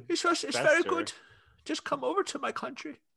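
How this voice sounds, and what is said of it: Put-on Icelandic accent. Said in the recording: “flawless Icelandic accent”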